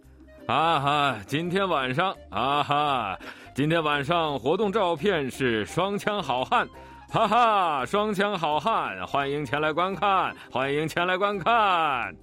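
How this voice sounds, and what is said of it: Loud shouting announcement voice. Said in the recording (Chinese): “大声地喊着什么话”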